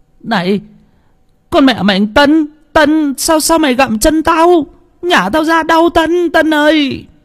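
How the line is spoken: Howling in pain. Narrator (Vietnamese): rú lên

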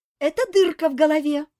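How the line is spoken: Joyful announcement. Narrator (Russian): радостно объявила Этель

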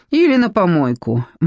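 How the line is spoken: Gloomy confirmation. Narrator (Russian): мрачно подтвердила Вера

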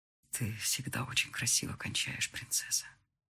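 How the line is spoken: Whispered. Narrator (Russian): шептал он мне

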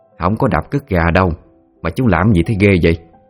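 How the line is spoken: Irritated snappish woman. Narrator (Vietnamese): Bà Tám bực bội thì sẵn giọng nói

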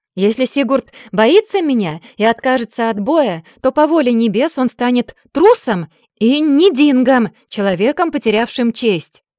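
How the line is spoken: Shouted. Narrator (Russian): прокричала

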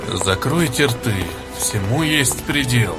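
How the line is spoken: Quiet, self-conscious speech. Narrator (Russian): тихо промолвил Хатхи, чувствуя нацеленные на него взгляды

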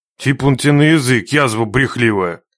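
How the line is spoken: Rough interruption. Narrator (Russian): Грубо прервал девку Нечай

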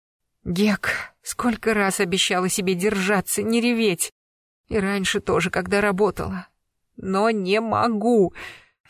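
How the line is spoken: Sobbing speech. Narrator (Russian): Всхлипывая

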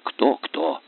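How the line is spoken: Hoarse mocking whisper. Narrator (Russian): хриплым шепотом передразнила Джин

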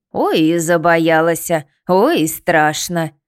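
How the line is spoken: Snorting. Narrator (Russian): фыркнула избушка

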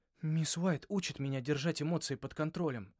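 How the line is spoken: Helpless. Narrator (Russian): беспомощно сказал я

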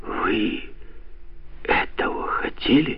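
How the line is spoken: Quiet, dejected question. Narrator (Russian): тихо спросил приунывший Макдональд

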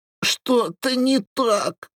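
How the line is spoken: Moaning. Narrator (Russian): стонала она

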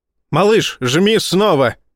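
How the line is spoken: Barked. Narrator (Russian): рявкнул Файн

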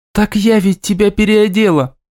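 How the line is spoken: Exclamation. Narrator (Russian): воскликнула Ника

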